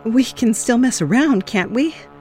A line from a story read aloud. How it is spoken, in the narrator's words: I pleaded